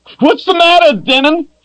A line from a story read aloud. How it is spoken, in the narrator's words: screamed